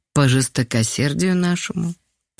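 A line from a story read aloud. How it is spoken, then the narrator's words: Sad reply. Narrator (Russian): печально отозвалась Люба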